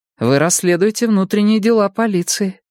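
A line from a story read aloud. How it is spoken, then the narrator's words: Sighing. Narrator (Russian): вздохнула Мия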